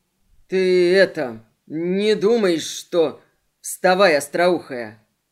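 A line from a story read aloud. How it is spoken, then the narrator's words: Shaken grumble. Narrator (Russian): изрядно побледневший Володар пробурчал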